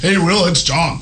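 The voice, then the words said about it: Monster truck guy voice. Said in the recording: “I can almost do it. My voice is almost totally back ... He definitely has that monster truck guy's voice”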